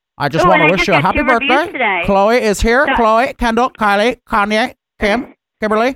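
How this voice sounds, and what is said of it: Imitates another person's voice. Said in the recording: “to do a Caitlyn Jenner impression ... So I'll give her Caitlyn impression.”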